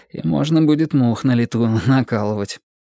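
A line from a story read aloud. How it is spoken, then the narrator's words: Nervous inward chuckle. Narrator (Russian): нервно хохотнул про себя Жора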